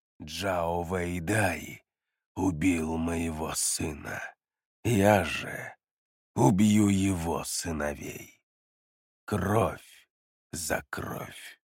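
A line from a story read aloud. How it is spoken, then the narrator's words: Whisper in ear. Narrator (Russian): Глава колючих вод прошептал тому на ухо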